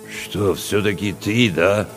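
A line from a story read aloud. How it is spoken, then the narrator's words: Confused grumble. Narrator (Russian): растерянно пробурчал Чевчеридзе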